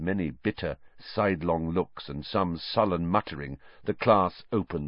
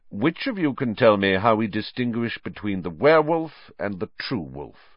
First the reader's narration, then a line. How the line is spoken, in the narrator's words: said Snape